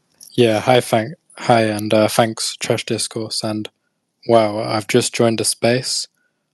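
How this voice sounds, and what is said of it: British accent. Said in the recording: “you probably recognize the British accent”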